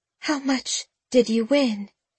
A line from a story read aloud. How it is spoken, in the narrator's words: She asked, her voice tremulous